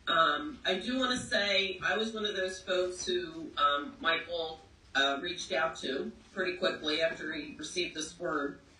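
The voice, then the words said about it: Rough, sick-sounding voice. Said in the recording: “excuse my voice, I'm tackling a cold”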